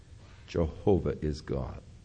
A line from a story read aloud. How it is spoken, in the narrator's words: the Jewish mothers, from the time the baby was first cradled in their arms, would begin to whisper in their ears